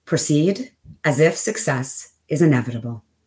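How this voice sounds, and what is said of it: Deep, smooth radio announcer voice. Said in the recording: “would you say this in your best radio voice?”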